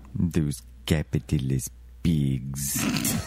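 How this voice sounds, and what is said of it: Put-on Russian accent. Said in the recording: “Hit the capitalist pigs in that Russian accent”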